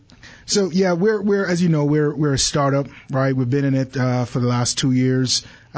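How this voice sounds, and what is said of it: Speaks with a distinct accent. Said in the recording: “I love your accent.”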